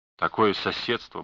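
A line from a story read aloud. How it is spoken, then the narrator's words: Muttering. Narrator (Russian): бормотал он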